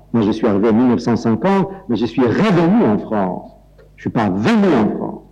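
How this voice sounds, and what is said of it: Speaks French with an accent. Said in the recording (French): “malgré mon accent.”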